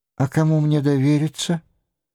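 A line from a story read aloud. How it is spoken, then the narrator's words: Sad sigh. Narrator (Russian): грустно вздыхает Мари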